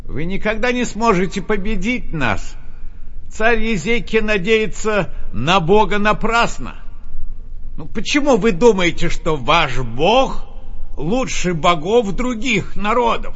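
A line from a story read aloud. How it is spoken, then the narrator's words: Envoy shouting again. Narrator (Russian): снова закричал посол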